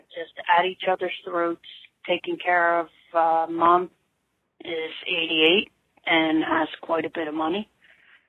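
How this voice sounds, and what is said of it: Philadelphia area accent. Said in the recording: “I love her accent, by the way. ... Huge fan of the Philadelphia area accent”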